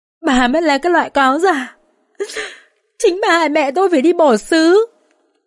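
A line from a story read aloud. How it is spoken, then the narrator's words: Muffled sobbing. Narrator (Vietnamese): Con Dương vừa ôm mặt vừa nức nở nói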